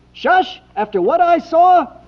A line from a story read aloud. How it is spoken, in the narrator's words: He shouted